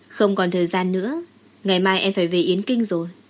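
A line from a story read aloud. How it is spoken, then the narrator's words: Faint, wry smile. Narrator (Vietnamese): Thái Ngưng cười nhạt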